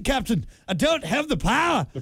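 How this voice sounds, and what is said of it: Poor Scottish accent impression of Scotty. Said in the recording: “Scotty, which I just did ... That was a terrible nice. Scottish accent”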